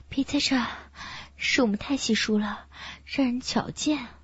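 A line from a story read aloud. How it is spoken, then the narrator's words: Slightly breathless. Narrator (Chinese): 孙倩微喘着气说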